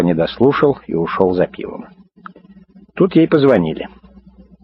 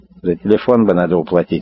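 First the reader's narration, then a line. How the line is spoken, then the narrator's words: Plain. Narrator (Russian): сказала Муся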